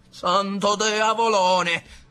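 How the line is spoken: Shouting. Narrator (Italian): gridò compare Tino

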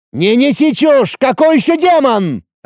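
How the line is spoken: Yelling back. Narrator (Russian): орал в ответ Ацев

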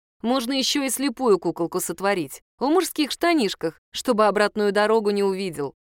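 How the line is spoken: Plain. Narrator (Russian): ответила я

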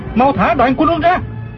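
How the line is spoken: Shouting mid-fight. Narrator (Vietnamese): Du Thản Chi vừa đấu chưởng vừa la lên

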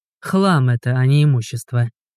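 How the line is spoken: Grumbling. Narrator (Russian): проворчал Игорь

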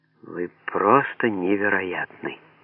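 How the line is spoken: Quiet. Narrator (Russian): тихо сказала она

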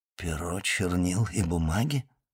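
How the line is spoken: Mumbling. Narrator (Russian): пробормотал Фернан

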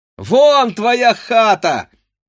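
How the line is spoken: Group shouting. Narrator (Russian): закричали они ему

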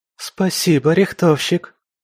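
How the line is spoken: Joyful squeal. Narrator (Russian): радостно взвизгнула спасенная дама

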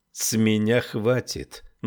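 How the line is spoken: Gloomy declaration. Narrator (Russian): мрачно заявил он

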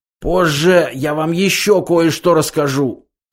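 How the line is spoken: Hoarse wheeze. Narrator (Russian): прохрипел Зафот

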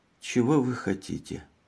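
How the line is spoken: Tired question. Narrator (Russian): Она спросила усталым голосом

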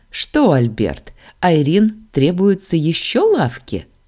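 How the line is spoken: Bearded man chuckles. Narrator (Russian): хохотнул бородач

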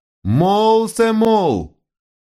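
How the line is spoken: Childish angry shout. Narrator (Russian): с выражением детской злобы закричал

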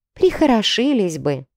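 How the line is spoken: Sighing servant. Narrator (Russian): вздохнула служанка

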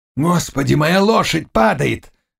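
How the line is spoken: Panicked yell. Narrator (Russian): завопил шляхтич

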